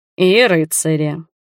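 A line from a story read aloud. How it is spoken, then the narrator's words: Mocking addition. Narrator (Russian): насмешливо дополнил Ральф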